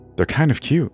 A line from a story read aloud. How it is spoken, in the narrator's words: he sighed, smiling